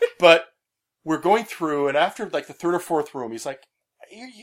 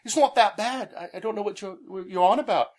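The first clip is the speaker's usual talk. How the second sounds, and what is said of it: Bad impression of a friend's accent. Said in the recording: “my Pete impersonation... His accent sounds nothing like that... my bad Pete impersonation”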